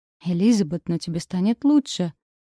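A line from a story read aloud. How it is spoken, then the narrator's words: Gentle coaxing. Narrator (Russian): уговаривал меня граф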